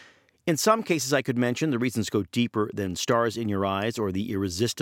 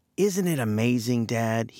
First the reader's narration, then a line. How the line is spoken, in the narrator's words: he is reported to have said in a softly plaintive voice